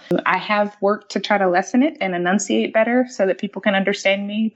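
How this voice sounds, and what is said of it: American Southern accent. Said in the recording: “I have an accent because I am from the South, so I'm a Southern girl ... the accent does seem to come out sometimes”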